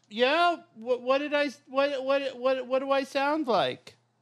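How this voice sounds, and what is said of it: Gnome-like character voice. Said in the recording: “You sound like a gnome.”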